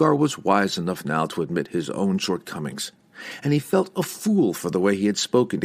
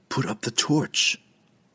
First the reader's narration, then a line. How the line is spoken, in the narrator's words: the drow whispered